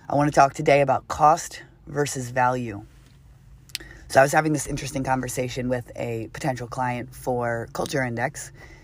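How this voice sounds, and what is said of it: Rough, not-yet-recovered voice. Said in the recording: “I thought by now my voice would have gotten better, but unfortunately it hasn't ... sexy voice”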